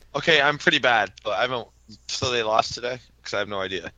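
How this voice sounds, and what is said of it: Voice affected by illness. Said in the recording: “I apologize for my voice. I've been under the weather this week.”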